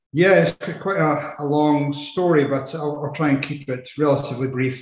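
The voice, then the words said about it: Scottish accent. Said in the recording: “you can tell by my accent, I'm uh, not from the US. I uh, was brought up in Edinburgh, in Scotland”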